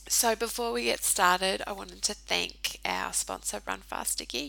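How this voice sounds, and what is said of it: Sick, under-the-weather voice. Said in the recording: “I'm a little bit under the weather, so you'll have to excuse my voice this week”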